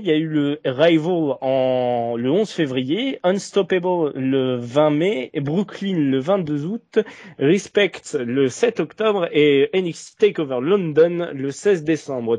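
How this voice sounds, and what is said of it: English names in exaggerated English accent. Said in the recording (French): “Tout ça dit dans un accent anglais des plus parfaits”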